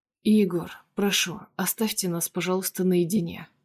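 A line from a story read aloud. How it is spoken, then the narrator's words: Quiet, restrained, carefully controlled. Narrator (Russian): произношу тихо и сдержанно, тщательно контролируя каждое слово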